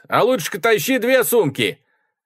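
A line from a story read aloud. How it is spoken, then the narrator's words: Laughing shout. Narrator (Russian): Я засмеялся и крикнул Грейс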